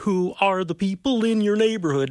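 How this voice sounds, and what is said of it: Imitates Sesame Street's Ernie voice. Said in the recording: “Your impersonations are spot on all the time ... You like Ernie? ... That was pretty good.”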